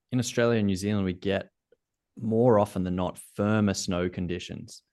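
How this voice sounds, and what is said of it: Australian accent. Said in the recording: “you can hear from my accent, I'm Australian”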